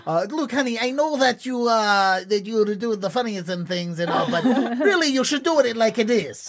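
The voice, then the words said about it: Exaggerated Russian-to-Italian put-on accent. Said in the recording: “I'm going to be whatever offensive accent I can be ... I went from Russian to Italian in three words ... that terrible accent”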